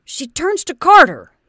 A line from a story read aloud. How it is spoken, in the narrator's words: he burst out again angrily